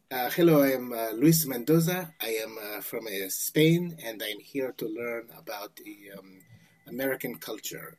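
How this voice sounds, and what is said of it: Terrible fake Spanish accent. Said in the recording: “I had this horrific accent that was like completely unbelievable, non-believable ... it was like this terrible, you know, it was just horrible”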